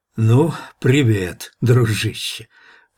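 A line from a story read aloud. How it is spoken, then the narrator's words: Hoarse wheeze into ear. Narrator (Russian): просипел Гук в ухо Ивану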